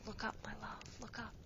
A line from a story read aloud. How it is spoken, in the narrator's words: She whispered to herself